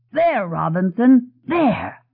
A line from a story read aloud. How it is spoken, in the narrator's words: Dennis cried